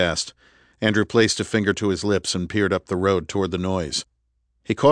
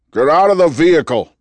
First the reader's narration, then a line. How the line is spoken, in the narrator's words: the man yelled, his voice muffled by the mask